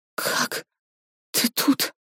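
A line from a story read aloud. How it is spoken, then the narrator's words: Whisper. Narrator (Russian): Варя прошептала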